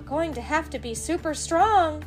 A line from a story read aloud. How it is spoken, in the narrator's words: yelled Dora